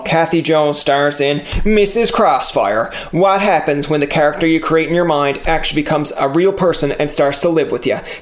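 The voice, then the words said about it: Newfoundland accent. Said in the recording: “my whole accent there ... you always have a Newfoundland accent ... that's the way you talk”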